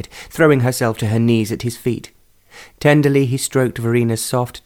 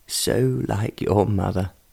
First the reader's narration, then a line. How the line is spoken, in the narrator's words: in a voice that was choked with emotion